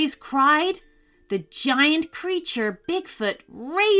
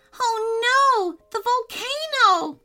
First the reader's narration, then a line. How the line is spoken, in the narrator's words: Caleb cried